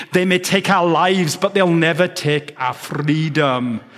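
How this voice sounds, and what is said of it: Bad accent imitating Mel Gibson. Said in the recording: “My accent was as bad as Mel Gibson's in the movie.”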